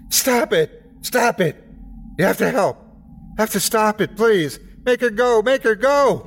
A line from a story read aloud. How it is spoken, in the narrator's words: Tears were wet on his cheeks, and spit flew in my face as he screamed